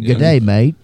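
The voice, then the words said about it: Put-on Australian accent. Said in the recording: “I don't know if that's an Australian accent, but it sounded good in my head.”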